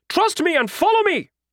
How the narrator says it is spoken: Hak Chul shouted

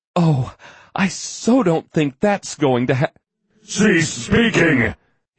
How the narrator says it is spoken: He roared

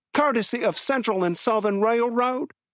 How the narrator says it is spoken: Harry Rex blurted

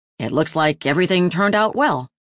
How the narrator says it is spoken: Tuesday said

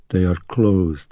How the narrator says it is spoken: muttered Willie

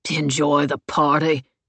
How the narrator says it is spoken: William grunted

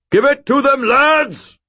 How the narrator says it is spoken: Sir Stuart bellowed, his voice rising above the cacophony of screams with the silvery clarity of a trumpet

